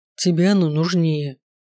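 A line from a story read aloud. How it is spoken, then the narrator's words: Grumbling. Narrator (Russian): проворчал он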